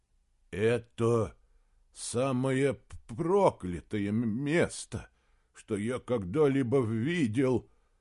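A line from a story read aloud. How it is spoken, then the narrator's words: Stammering mutter. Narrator (Russian): Запинаясь, пробормотал Гримрик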